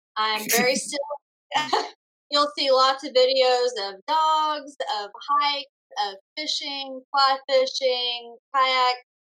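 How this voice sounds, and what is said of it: Speaks with a noticeable accent. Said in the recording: “I've got an accent.”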